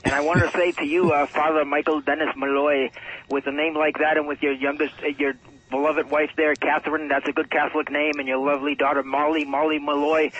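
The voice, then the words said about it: Put-on Irish brogue. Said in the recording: “back to my regular accent. I didn't mean to butcher the brogues there.”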